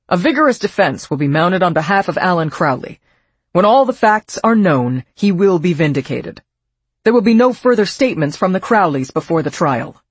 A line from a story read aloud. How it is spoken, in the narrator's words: He stated firmly